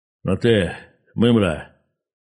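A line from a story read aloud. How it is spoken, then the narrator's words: Muffled, hollow voice. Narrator (Russian): сказал человек глухим голосом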